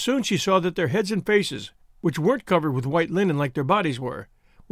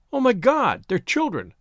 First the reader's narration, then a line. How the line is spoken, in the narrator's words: She cried out, totally unprepared for the sight